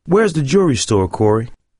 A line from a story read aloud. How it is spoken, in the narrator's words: he asked